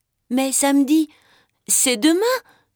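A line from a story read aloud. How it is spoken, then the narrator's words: Exclaimed. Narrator (French): s'écrie Mimi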